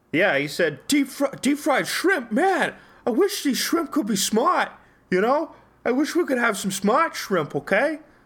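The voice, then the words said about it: Imitates another person's voice. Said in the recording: “exactly in that tone ... my perfect Mark Wahlberg impression”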